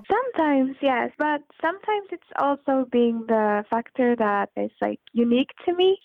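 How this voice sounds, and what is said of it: Foreign accent. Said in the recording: “I love your accent”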